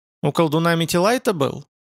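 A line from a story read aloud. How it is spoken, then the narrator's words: Plain. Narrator (Russian): спросил он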